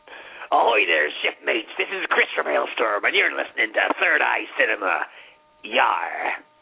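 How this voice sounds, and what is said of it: Pirate character voice. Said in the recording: “Can you do one in the pirate voice? ... Sure, I could be Captain Chris from Aelstrom ... All I do is put on fucking accents all day long.”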